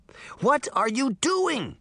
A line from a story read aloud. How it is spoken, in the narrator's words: she demanded